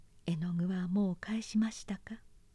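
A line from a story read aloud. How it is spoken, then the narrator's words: Small quiet voice. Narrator (Japanese): と小さな声でおっしゃいました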